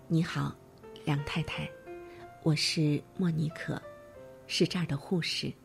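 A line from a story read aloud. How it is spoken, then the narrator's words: Slow, gentle, smiling. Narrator (Chinese): 她微笑着 语速缓慢而温柔地说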